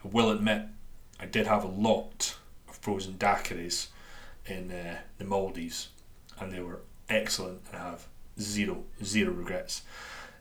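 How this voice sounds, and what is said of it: Dundonian Scottish accent. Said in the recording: “my Dundonian accent”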